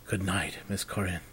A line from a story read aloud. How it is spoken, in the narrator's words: said quietly